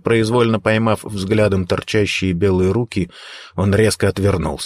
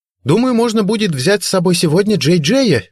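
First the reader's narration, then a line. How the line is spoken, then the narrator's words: Cheerful, ringing voice. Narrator (Russian): весело и звонко проговорила Бренда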